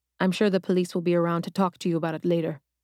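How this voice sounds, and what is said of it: Soft, gentle rolling Caribbean accent. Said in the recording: “His rolling Caribbean accent was soft and gentle.”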